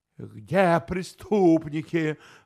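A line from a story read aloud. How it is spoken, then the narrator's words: Roar, short man. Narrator (Russian): взревел коротышка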